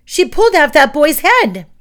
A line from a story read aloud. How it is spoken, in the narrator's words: With a blood-curdling scream